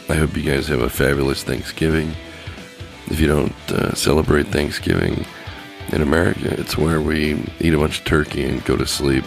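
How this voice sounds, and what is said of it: Scratchy, strained voice. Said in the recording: “my throat's starting to get a little too scratchy and it's starting to hurt ... before I completely lose my voice”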